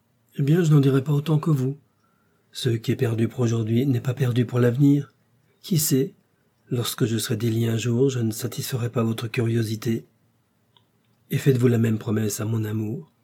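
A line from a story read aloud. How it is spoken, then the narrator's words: Joyful exclamation. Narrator (French): s'écria D'Artagnan au comble de la joie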